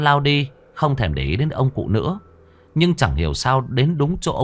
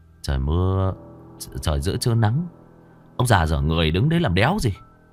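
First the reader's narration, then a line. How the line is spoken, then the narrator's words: Muttering. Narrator (Vietnamese): Nam lầm bầm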